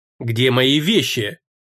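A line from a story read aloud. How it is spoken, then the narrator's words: Very unpleasant voice. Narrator (Russian): крайне неприятным голосом осведомилась Клара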